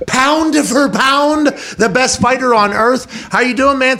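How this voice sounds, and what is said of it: Pittsburgh accent. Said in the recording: “That's a Pittsburgh accent.”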